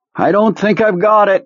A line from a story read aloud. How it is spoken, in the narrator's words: croaked